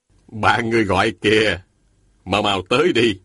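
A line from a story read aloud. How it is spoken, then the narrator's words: Smiling. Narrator (Vietnamese): Thôi Thu Sơn mỉm cười nói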